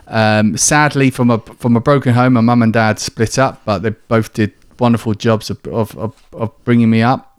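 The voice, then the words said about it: Southern English accent. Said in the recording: “from down south, you can probably tell by my accent, in Kent”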